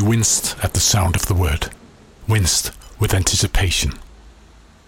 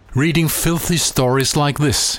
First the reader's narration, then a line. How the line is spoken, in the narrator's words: he said